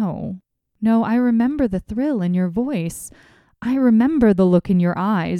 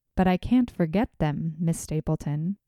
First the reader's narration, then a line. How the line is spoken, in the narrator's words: said I